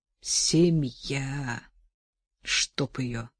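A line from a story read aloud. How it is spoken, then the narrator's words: Hissed. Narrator (Russian): прошипел Эжен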